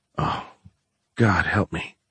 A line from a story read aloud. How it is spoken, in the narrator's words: he muttered